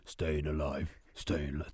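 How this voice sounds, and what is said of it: Singing in a very deep voice. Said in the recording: “Really deep voice. ... Too low.”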